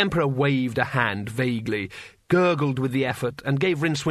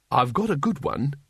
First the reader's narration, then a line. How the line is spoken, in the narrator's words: he said